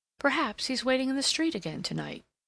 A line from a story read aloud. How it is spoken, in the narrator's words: she exclaimed